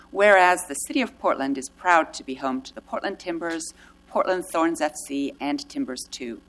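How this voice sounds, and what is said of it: Slight British accent. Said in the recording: “a tinge of British accent still here after 30 years in Portland”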